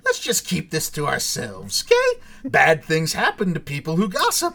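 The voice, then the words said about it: Joker impression. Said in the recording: “That's not a bad impression. I'm impressed. ... The impression I can come close to. ... I can come closer, I think, to Hamill than I could to Jack.”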